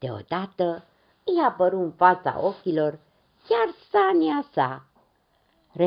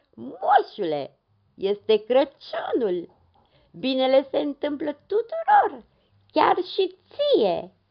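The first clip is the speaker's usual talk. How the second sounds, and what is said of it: Hoarse character voice exclaiming. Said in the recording (Romanian): “exclamă un glas răgușit.”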